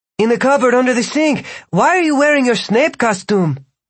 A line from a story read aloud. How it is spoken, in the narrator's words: Margarita had to yell